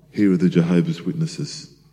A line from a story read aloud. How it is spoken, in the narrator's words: Opening it quietly, he whispered